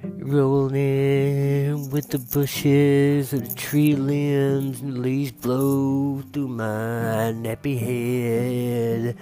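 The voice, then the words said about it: Imitates another person's singing voice. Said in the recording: “let me do my best impression of this”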